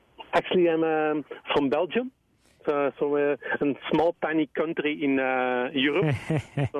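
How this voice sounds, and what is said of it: Slight foreign accent. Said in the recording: “I sense a drop of an accent.”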